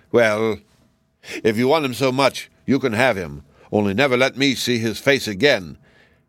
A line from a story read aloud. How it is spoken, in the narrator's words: the king said angrily